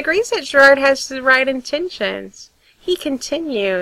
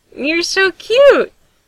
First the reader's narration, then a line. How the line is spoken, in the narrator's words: Brendan laughs, says